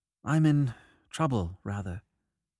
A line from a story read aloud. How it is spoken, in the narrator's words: He paused nervously to add a moment later